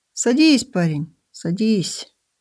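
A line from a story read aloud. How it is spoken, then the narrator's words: Plain. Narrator (Russian): сказал маленький пекарь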